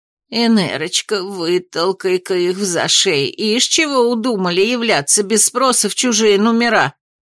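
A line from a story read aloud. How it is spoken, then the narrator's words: Wary muttering. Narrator (Russian): Пробормотала она, с опаской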